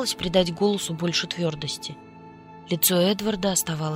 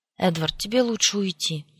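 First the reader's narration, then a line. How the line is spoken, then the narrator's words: Sigh. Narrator (Russian): вздохнула я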